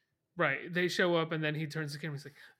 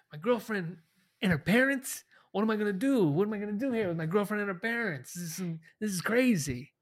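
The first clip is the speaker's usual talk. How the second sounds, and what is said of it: Imitates another person's voice. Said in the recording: “I can't really do a Christian Slater impression. I guess it's just a bad Jack Nicholson, right? ... I was thinking you were doing sort of more of a De Niro”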